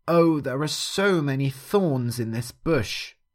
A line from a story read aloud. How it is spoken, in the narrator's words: cried Doggo